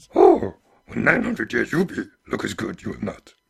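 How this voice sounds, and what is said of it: Deep Yoda voice, slightly Jamaican accent. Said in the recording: “another one of our awesome impressions ... now you have no voice left for the rest of the episode ... Oh, went a bit deep there. ... it had a little bit of an accent too, like sounded like maybe a slightly Jamaican. ... when I try and do Yoda. It does go a bit Jamaican”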